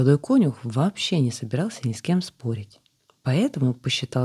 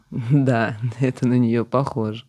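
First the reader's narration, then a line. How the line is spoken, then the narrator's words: Said after laughing. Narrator (Russian): отсмеявшись, сказал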